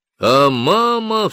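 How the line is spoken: Loud echoing cry. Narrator (Russian): вскричал тогда Мартин громко, и голос разнесся в пространстве

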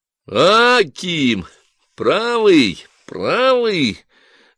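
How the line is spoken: Loud grey-haired rowdy. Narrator (Russian): громко заговорил только что подошедший Ишанин, седой московский хулиган 30-х годов

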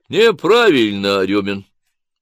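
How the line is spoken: Condescending deep voice. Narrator (Russian): снисходительно пробасила судья

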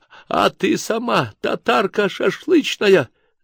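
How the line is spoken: Sudden wailing, sobbing. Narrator (Russian): завопила вдруг и зарыдала Тамарка

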